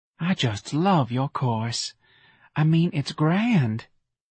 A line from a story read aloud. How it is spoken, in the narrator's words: Talc and breathed